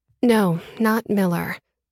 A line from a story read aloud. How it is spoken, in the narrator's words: I said tightly